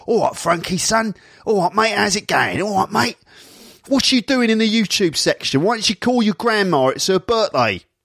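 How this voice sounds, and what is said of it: Put-on Cockney accent. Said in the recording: “Can you speak with a Cockney accent?”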